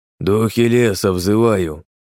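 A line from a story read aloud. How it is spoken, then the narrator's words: Wheezing. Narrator (Russian): Просипел он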